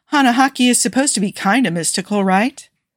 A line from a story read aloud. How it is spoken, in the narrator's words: Steve sighed